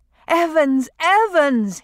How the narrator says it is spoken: he cried

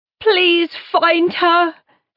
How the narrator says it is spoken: she yells

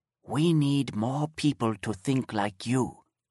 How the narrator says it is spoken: whispered

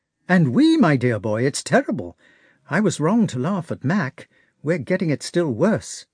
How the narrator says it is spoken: said Nesvitsky

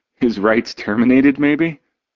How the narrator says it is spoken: Cord laughs, an anger palpable in his tone

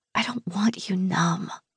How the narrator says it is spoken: whisper

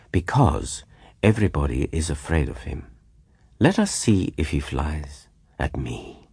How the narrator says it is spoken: replied the Count quietly

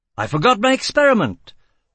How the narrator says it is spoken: Formile exclaimed

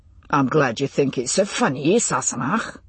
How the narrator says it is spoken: Jamie said very dryly

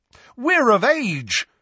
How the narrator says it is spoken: Fred and George bellowed together

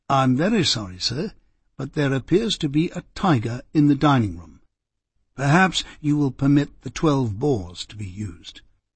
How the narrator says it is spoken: whispered in the latter's ear

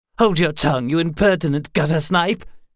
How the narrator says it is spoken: snapped Darren

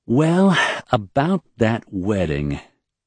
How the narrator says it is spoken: she said slowly

